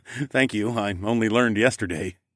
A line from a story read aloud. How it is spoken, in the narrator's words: chuckled